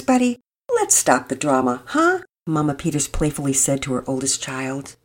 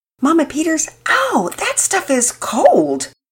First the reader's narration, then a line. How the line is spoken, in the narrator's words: Pearson blurted out